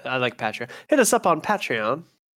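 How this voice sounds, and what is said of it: Poor put-on British accent. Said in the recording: “sounds British ... Oh, my accent's terrible.”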